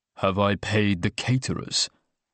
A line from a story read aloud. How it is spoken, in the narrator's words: said Oliver bitterly